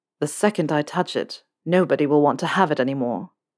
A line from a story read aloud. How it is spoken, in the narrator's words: Draco said quietly